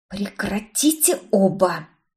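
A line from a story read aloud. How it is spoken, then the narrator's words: Hissing. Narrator (Russian): Прошипела я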